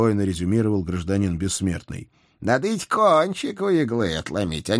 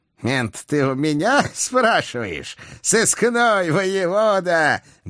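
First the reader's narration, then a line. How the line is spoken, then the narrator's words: Booming laughter. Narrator (Russian): Громогласно захохотал преступный гений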